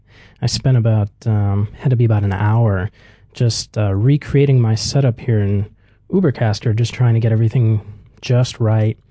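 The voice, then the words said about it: Worn voice, sore throat. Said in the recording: “I feel like I'm losing my voice. ... I feel like I have a bit of a... sore throat coming on ... it's been a little bit cold out lately, so I think that's kind of getting at my throat”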